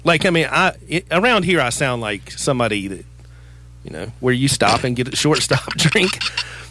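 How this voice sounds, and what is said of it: Southern American accent. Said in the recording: “if you ever feel bad about having a Southern accent ... The women there loved my accent”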